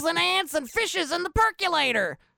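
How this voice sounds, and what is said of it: Imitates another person's voice. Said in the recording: “do a David Lynch impersonation.”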